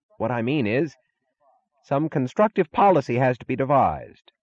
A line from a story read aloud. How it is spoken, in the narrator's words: he droned on hastily